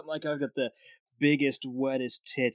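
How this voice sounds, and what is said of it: Sultry, sexy commercial voice. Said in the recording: “that sexy voice.”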